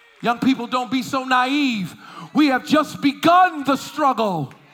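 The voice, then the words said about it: Upset, impassioned voice. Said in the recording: “Do I sound upset? I am. Do I sound bothered? I am.”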